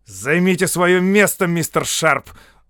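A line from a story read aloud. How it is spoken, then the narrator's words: Angry curt remark. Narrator (Russian): зло бросил капитан Уркхарт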